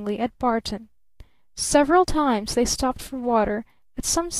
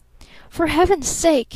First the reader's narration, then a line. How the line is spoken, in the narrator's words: he cried